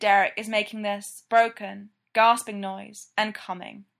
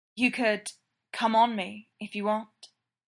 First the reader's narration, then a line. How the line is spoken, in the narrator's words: Styles murmur